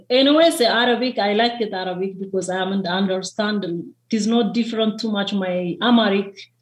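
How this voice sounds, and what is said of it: Non-native English accent, slow pronunciation. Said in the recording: “I know I have accent, my pronunciation down slow”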